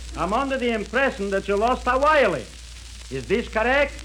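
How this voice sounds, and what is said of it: Comic put-on dialect. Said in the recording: “a bloodhound with a dialect”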